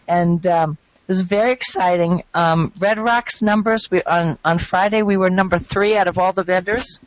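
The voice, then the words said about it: Slightly hoarse voice. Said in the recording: “You can hear I'm a little bit hoarse, ... from yelling out hot dogs, hamburgers”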